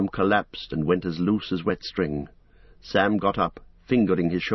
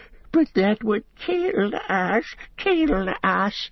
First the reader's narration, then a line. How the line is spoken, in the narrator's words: whimpered Gollum